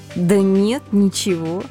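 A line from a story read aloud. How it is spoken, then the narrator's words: Taken-aback drawl. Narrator (Russian): слегка опешив от услышанного, протянула я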